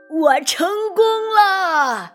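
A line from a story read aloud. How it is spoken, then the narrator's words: Triumphant loud old man. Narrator (Chinese): 一位老先生第一个爬到了山顶上，他张开双手，大声的喊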